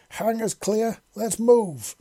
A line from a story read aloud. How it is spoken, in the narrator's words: Jack yelled through the comms